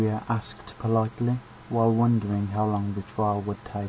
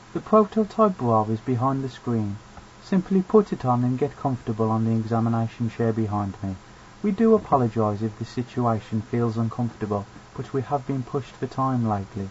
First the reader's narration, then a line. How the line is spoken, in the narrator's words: said kindly